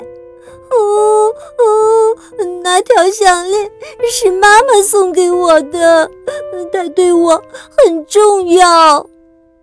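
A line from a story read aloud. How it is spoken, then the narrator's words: Crying. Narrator (Chinese): 梅根哭了起来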